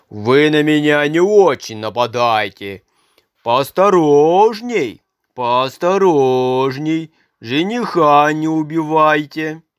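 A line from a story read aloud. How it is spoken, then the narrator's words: Joking shout. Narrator (Russian): он и крикнет им в шутку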